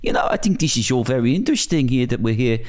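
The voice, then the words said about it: Put-on Dutch accent. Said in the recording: “in this Dutch accent.”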